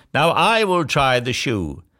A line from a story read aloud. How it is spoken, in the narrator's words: sister number two, who yelled